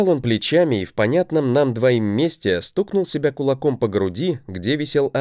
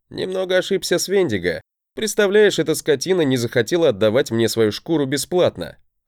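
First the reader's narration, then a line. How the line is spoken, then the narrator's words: Laughing chuckle. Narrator (Russian): хохотнул я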